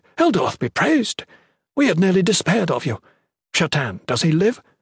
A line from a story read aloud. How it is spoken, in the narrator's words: exclaimed